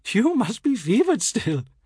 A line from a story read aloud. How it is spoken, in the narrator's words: expostulates, giggling